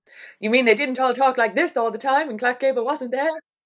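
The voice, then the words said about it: Bad 1940s-style accent. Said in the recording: “My terrible 40s accent”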